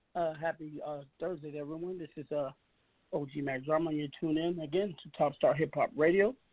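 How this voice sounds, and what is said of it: Dry, slightly hoarse voice. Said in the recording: “my voice is dry.”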